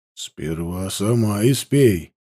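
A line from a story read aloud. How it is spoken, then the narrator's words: Wary grumble. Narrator (Russian): опасливо, буркнул Илень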